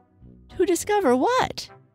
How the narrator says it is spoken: said Piglet anxiously

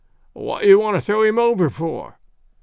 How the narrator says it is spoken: questioned the sailor, in a querulous voice

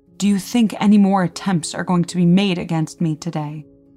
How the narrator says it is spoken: he angrily inquired

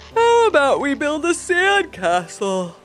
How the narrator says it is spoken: Levi asked with a yawn

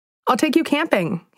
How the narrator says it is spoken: exclaimed with glee

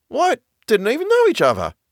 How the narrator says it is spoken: exclaimed

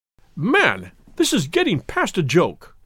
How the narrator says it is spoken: cried MacDonald, rising angrily from his chair

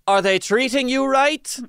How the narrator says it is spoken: he would loudly ask her

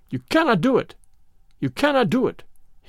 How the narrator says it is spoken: he cried

